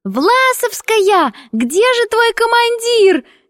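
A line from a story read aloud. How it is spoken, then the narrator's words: Shouting. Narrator (Russian): кричала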